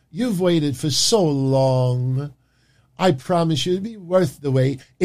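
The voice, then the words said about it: Impression of Emma. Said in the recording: “This is my Emma impersonation.”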